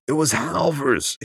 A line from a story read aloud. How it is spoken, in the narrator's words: screamed